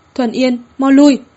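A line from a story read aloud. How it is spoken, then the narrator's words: Loud shout. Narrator (Vietnamese): Vư Thi hét lớn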